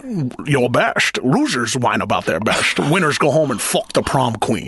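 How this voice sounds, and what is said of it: Sean Connery impression. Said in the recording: “My Sean Connery.”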